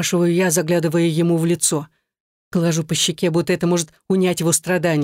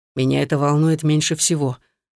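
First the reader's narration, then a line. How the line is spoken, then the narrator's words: Through gritted teeth. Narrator (Russian): цедит Руслан сквозь зубы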